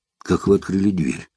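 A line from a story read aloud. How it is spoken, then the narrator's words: Frightened whisper. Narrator (Russian): Испуганно прошептал Эраст Петрович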